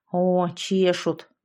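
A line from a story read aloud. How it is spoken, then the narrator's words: Gruff mutter. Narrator (Russian): буркнула Яшка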